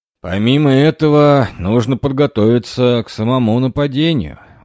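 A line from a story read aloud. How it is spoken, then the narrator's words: Tired. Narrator (Russian): устало говорил Джон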